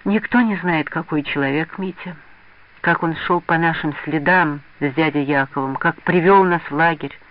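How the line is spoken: Sad. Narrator (Russian): грустно сказал Саша

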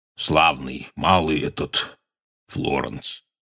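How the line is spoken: Hoarse. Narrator (Russian): хрипло сказал он

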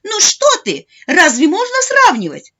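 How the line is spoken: Grandmother exclaiming. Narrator (Russian): воскликнула бабушка

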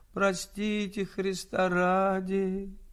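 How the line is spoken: Whining like old beggar. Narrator (Russian): не своим голосом, точно старенький нищий, тянул

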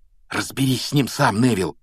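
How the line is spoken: Whisper. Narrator (Russian): шепнул он

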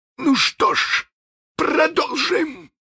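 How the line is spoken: Desperate exclamation by captain. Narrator (Russian): воскликнул капитан в отчаянии

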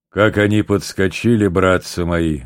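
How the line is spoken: Deep bass, tall soldier. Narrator (Russian): говорил басом один высокий солдат

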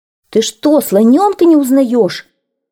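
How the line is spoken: Several voices shouting. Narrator (Russian): закричали олень, обезьянка и кокоду

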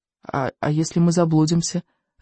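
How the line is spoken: Timid question. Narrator (Russian): робко поинтересовался Рыбьенок

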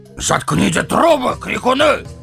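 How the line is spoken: Loud barking shout. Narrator (Russian): гаркнул он

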